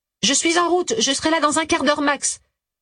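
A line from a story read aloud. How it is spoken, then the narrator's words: Curt retort. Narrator (French): rétorqua-t-elle d'un ton sec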